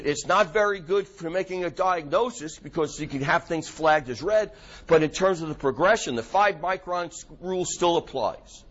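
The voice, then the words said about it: New York accent. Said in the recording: “My New York accent's coming out, huh?”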